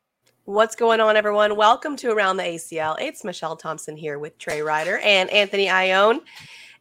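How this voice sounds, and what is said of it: Recovering, slightly rough voice. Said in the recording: “I'm getting over a cold and my voice is, well, much better than it was... That was like not a bear, even above a whisper about like 3 days ago”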